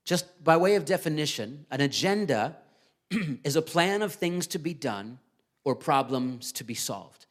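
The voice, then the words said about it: Strained voice, still recovering. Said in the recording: “you guys might be able to tell my voice is still... I lost my voice completely 2 weeks ago”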